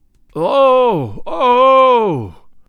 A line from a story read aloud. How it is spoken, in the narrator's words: groaned the chorus of astonished aborigines